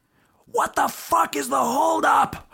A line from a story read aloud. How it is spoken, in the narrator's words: I screamed out the window